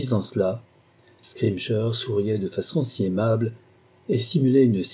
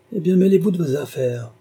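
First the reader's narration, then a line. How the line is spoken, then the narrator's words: Grumble. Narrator (French): grommela-t-il enfin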